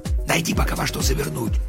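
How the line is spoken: Whisper. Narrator (Russian): прошептал он

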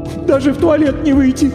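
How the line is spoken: Woman's sorrowful sob. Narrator (Russian): горестно всхлипнула дама

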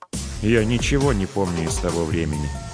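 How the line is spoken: Dull lifeless voice. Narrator (Russian): погасшим голосом ответил Ред

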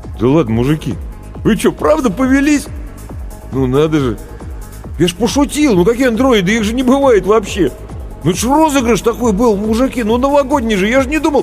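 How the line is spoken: Confused babbling. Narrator (Russian): Он пытался неловко улыбаться и еще продолжал растерянно лопотать

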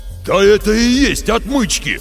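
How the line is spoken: Roared. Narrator (Russian): взревел, придя в себя Лев Борисович

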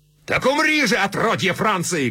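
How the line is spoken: Shout. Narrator (Russian): крикнул он

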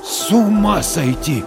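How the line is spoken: Stunned breath. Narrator (Russian): ошарашенно выдохнул Дворкин

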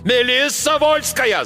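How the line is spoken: Yelling captain. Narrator (Russian): заорал капитан

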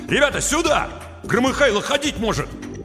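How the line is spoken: Shout. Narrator (Russian): Саня нагнулся в машину и крикнул

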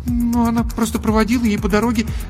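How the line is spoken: Embarrassed babbling. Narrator (Russian): залепетала Даша, сама понимая, как глупо и смешно выглядит ее ложь

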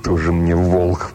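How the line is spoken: Snorting to himself. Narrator (Russian): фыркнул про себя жихарь

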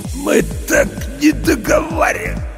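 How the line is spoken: Hoarse, fading. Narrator (Russian): прохрипел Серега и затих

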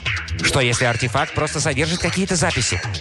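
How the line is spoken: Plain. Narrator (Russian): Кэрол говорит

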